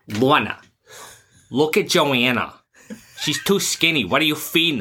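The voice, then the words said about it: Thick Rhode Island accent. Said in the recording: “these horrible Rhode Island accents ... give our listeners an example of that accent”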